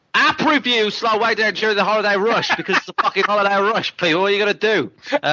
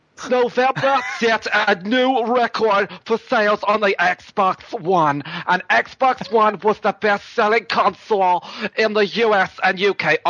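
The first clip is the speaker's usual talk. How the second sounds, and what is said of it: Put-on Jewish accent. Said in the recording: “So what accent do you want me to do it in? Jewish? Okay.”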